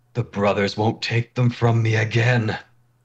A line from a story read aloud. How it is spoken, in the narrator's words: Tetch's eyes are lit up, and he shouts